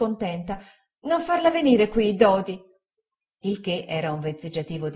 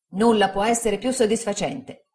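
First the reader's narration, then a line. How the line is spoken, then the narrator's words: Plain. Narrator (Italian): disse Traddles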